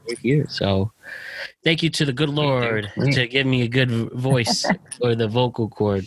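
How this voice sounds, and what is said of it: Good radio voice. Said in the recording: “You got a good radio voice.”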